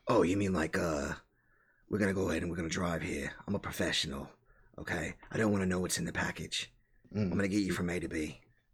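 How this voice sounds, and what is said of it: Imitates another person's voice. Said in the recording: “You sound like a butcher from The Boys. ... I'm trying to sound like Jason Statham.”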